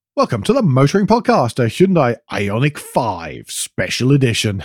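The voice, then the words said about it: Announcer voice. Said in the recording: “Incredible to move the announcer voice there that you used. ... it does need a special voice.”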